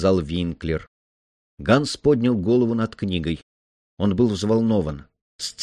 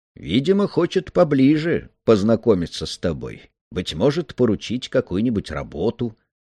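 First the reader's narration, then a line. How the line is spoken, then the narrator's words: Cheerful reply. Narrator (Russian): отвечал Винклер, и глаза его весело улыбались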